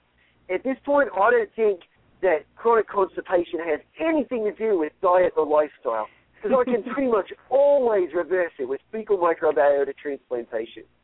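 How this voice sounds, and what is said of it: Put-on Australian accent. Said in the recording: “that was my Australian accent”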